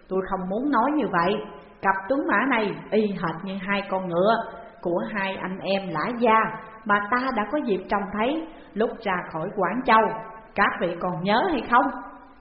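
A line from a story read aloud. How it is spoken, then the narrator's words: Smiling. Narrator (Vietnamese): Phùng Huy Hạ mỉm cười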